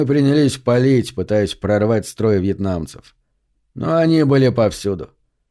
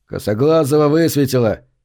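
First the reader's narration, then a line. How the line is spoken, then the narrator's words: Someone's shout. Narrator (Russian): Кто-то крикнул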